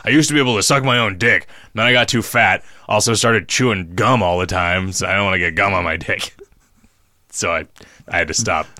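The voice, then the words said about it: Imitates another person's voice. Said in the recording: “great Ron Jeremy impersonation”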